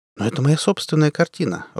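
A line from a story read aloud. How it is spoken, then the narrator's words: Timid objection. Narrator (Russian): робко возразил Мегерен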